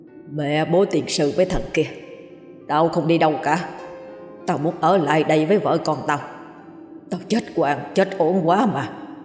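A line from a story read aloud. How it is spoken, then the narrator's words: Deep gruff adult voice. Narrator (Vietnamese): cất tiếng ồm ồm đúng giọng người lớn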